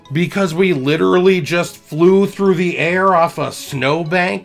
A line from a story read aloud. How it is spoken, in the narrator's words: my dad yelled